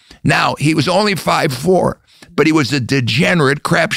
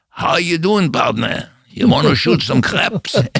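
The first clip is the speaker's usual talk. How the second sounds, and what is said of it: Russian immigrant speaking with Texas accent. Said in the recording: “learned to speak English with a broken accent in Texas ... He's a Jewish immigrant from Russia with a Texas accent.”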